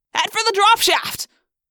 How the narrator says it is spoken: Marco cried

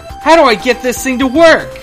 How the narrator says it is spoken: he shouts

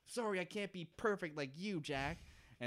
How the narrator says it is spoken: Kate starts kind of just screaming back and being like

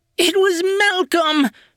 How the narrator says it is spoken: screamed

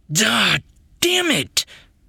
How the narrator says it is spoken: Reese screamed

